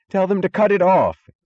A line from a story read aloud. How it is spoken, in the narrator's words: screamed Wesley Mooch